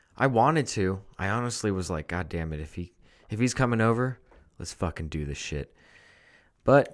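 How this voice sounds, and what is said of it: Deepened, sick-sounding voice. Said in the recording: “my voice went down an octave. Because of this, like ... Chest cold I had over the past couple days”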